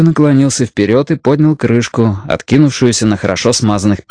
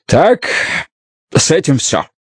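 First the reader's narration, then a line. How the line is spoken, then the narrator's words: Deep sigh. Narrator (Russian): Бидвелл глубоко вздохнул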